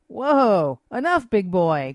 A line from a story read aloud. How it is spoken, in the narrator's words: cried Destiny, backing away